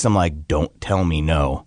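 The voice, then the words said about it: Stern, scary dad voice. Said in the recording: “Dad voice, man. ... That was a dad voice that like shook me. ... you're scary.”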